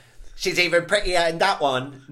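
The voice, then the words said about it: Poor imitation of someone's accent. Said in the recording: “I really want to try and do Katie's accent. ... No, that's awful. ... In my head it sounds way better.”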